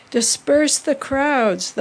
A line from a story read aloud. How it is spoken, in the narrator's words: the order boomed through the loudspeaker